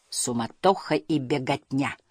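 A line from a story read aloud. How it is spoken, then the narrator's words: Plain. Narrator (Russian): сказал Хемуль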